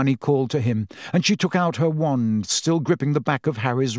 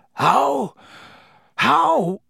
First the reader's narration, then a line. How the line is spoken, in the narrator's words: said Black weakly